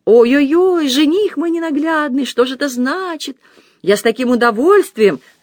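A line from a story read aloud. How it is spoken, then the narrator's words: Shouting. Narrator (Russian): закричала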